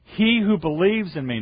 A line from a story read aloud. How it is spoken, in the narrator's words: He cried out and said